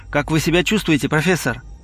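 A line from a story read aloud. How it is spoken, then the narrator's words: Quick and quiet. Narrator (Russian): Оуэнс быстро и тихо сказал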